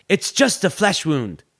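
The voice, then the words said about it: Poor John Cleese impression. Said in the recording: “in a terrible John Cleese accent”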